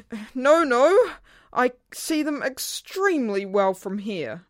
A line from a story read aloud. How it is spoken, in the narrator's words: He cried